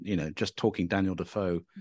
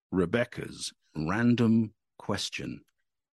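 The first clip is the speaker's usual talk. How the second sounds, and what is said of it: Put-on deep announcer voice. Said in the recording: “I'm going to do the deep voice now.”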